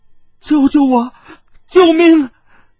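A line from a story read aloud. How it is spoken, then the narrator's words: Terrified, trembling cry. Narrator (Chinese): 柳希吴突然惨呼了一声，颤声道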